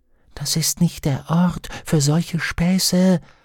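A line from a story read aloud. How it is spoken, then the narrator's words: Demon whispering. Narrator (German): flüsterte ihr Dämon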